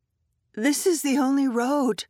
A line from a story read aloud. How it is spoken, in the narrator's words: said, and my voice shook